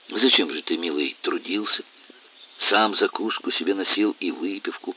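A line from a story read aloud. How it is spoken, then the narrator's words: Gentle affectionate question. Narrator (Russian): ласково спросил Зотов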